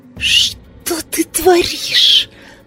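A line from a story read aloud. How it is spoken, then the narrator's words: Bride's hiss. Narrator (Russian): зашипела невеста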